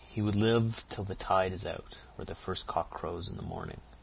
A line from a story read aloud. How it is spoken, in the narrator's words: said Katy solemnly